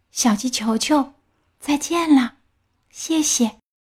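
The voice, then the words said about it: Weak, faint voice. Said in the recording (Chinese): “向日葵用微弱的声音说”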